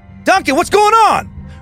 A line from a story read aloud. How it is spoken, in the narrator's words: Ron shouted